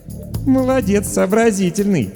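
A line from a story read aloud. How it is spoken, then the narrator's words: Laughing. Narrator (Russian): хохотнула Даша Воронина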